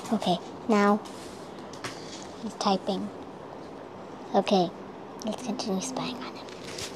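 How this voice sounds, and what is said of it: Whispering. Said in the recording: “Stop trying to whisper.”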